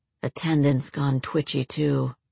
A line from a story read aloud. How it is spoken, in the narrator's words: Drew murmured